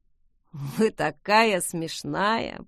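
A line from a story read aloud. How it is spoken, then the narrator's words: Drawling young voice. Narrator (Russian): протянул паренек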